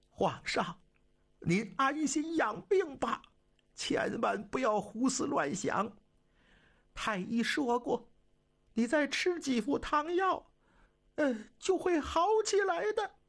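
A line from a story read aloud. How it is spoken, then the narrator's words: Sobbing, broken speech. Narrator (Chinese): 惠亲王哭得更厉害了，他断断续续地说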